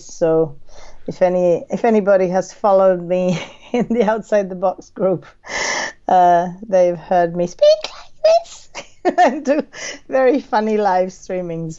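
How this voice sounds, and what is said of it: Hoarse, partly lost voice. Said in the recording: “Totally lost my voice ... it's still a little bit funny, but it's much better”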